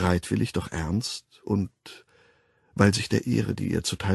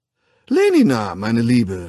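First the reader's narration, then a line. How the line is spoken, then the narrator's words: Calling, changed tone. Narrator (German): rief er in völlig verändertem Ton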